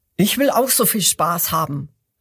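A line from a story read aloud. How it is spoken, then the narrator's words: Strong crocodile calling out. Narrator (German): ruft das zweite Krokodil, das ganz starke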